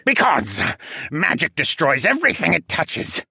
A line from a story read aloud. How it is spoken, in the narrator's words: the demi-human sneered